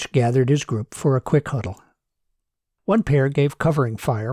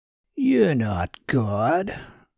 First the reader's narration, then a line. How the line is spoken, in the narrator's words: growled the prisoner